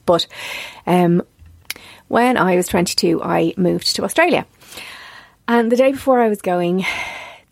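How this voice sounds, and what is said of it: Emotional, tearful voice. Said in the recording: “I'm extremely emotional and I cry very easily. So if you hear it in my voice, yes, I probably am getting quite emotional”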